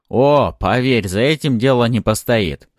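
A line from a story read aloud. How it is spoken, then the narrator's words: Smirking snort. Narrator (Russian): хмыкнул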